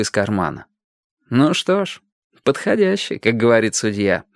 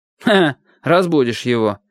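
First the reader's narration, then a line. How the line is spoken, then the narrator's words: Angry. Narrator (Russian): сердито глядя на рабфаковца, сказал Петька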